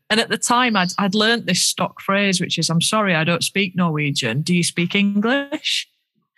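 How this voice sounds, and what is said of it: Yorkshire English accent. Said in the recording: “my Yorkshire accent”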